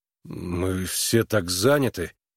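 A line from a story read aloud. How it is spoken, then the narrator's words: Confused mumble. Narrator (Russian): растерянно пробормотал Харлан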